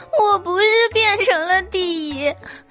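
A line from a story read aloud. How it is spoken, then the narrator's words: Tearful sobbing. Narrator (Chinese): 老虎哭得更伤心了，他泪眼婆娑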